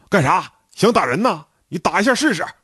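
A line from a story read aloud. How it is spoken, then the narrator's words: Hothead's loud roar. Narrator (Chinese): 他是队里有名的愣头青，大声吼道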